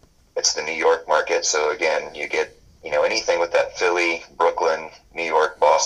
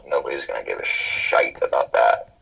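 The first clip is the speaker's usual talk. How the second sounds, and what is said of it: Put-on British accent. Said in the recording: “your British accent there”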